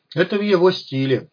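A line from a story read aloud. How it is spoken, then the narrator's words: Snorting chuckle. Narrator (Russian): хмыкнул я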